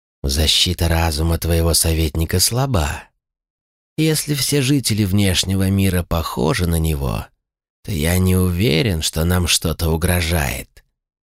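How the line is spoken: Lich hissing. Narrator (Russian): прошипел лич

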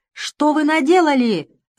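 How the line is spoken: Shouting. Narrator (Russian): закричал

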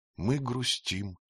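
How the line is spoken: Quiet young woman objecting. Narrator (Russian): тихо возразила молодая женщина

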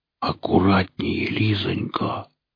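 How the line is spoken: Whisper, feigned slight fear. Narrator (Russian): прошептал он, стараясь говорить чуточку испуганно

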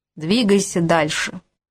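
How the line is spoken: Rough, broken English. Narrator (Russian): на корявом английском грубо отозвался Мунги

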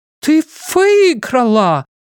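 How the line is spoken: Excited exclamation, Swedish accent. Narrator (Russian): воскликнула Герда, которой от волнения вернулся шведский акцент

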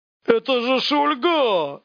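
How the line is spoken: Shouting. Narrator (Russian): закричал бандит

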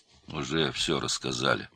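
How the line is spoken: Gloomy. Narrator (Russian): мрачно сказал Стольников

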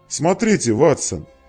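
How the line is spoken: Exclaiming. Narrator (Russian): воскликнул Холмс

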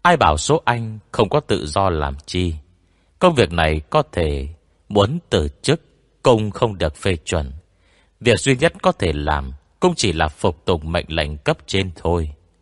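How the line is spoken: Sighing. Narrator (Vietnamese): Lưu Minh Dương thở dài

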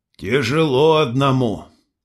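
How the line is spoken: Sigh. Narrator (Russian): вздохнул Никита

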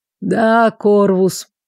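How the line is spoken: Sighing. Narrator (Russian): вздохнул лорд

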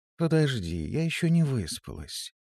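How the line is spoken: Sleepy reply. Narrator (Russian): Лерея сонно ответила

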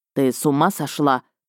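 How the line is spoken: Attempted growl. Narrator (Russian): попытался рыкнуть бывший

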